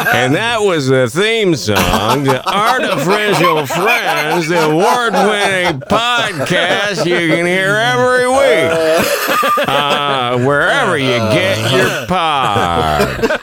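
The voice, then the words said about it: Feeble old-school radio DJ voice. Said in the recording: “Who's that an impersonation of? ... it's my old DJ character. Nobody in particular. My old feeble adult DJ character.”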